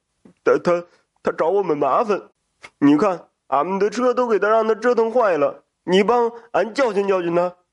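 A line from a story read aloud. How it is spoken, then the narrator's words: Whining, aggrieved. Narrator (Chinese): 大彪就哭丧着个脸说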